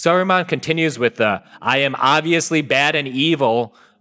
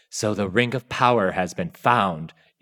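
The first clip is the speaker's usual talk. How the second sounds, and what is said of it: Menacing Christopher Lee impression. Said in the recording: “The way Lee drips out his lines like ... is perfectly menacing ... my bad Christopher Lee impression”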